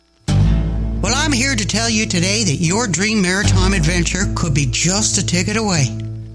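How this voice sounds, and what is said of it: Regional folksy accent. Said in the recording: “Don't you love that accent? Yeah, it'll be right good.”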